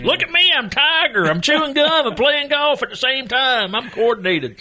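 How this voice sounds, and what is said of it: Mock Deep South accent impression. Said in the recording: “that's my go-to impression for everybody ... impersonating people in the Deep South ... by that impression ... that's also my British impression”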